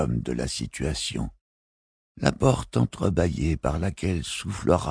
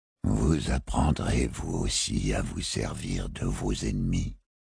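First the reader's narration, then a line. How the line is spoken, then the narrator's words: Murmuring. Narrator (French): murmura Barofil le 24e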